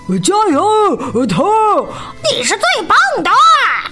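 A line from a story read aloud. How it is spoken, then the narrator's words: Loud cheering. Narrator (Chinese): 田鼠细尾巴和克拉拉大声欢呼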